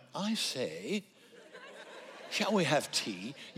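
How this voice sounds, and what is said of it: Mock British accent. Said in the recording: “Speakers that have a British accent”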